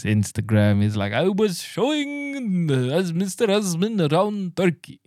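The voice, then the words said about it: Poor put-on Turkish accent. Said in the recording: “It's a terrible Turkish accent”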